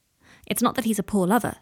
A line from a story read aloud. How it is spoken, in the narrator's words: says Andrew